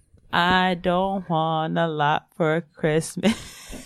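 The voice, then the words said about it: Singing in a flat monotone. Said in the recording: “I'm going to make an album of cover songs, but in a monotone voice.”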